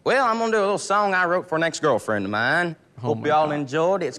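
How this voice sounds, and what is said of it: Southern US country accent. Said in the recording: “they had tobacco in their mouth ... Oh, I understand all the Southern accents now ... I hope you sing like you talk ... a kid with a country voice like this”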